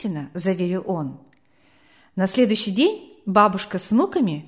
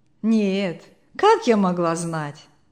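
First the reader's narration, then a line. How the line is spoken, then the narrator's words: Grandmother laughing. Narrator (Russian): засмеялась бабушка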